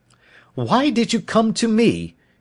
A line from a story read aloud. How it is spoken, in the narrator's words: he cried